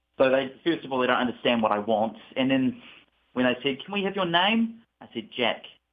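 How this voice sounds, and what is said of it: New Zealand accent. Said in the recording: “New Zealand. ... I love your accent.”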